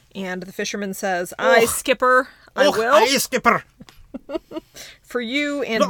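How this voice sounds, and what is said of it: Put-on Scottish accent. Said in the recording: “That's the best Scottish accent you've ever heard. ... It was very ... good”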